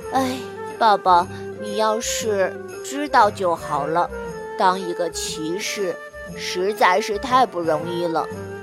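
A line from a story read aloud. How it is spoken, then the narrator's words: Sighing. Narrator (Chinese): 艾利奥特叹了一口气说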